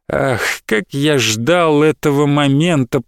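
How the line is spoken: Drawling. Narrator (Russian): протянул

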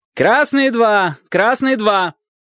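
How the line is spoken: Coach shouting. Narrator (Russian): прокричал тренер

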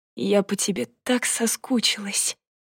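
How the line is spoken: Whisper. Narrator (Russian): прошептала

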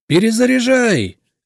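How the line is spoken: Shouted. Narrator (Russian): крикнул я

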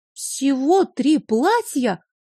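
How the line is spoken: Exclamation. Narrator (Russian): воскликнула

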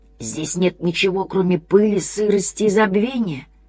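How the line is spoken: Indistinct mumble. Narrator (Russian): невнятно пробормотало существо

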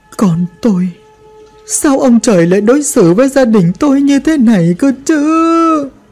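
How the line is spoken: Quiet sobbing. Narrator (Vietnamese): Bà lại khóc, nhưng khóc chẳng thành tiếng nữa mà chỉ có sụt sùi

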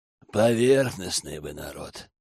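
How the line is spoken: Grumbled. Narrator (Russian): проворчал Йорин

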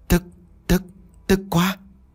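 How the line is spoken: Stuttering. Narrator (Vietnamese): nó lắp bắp, nói giọng như cả lăm

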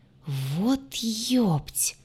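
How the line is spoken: Pained groan. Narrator (Russian): простонал механик, сползая по стене, куда его отшвырнула ополоумевшая родственница

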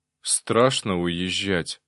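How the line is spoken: Sighing. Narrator (Russian): вздохнул Арсений

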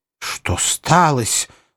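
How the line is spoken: Rather angry question. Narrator (Russian): спросил он довольно-таки сердито

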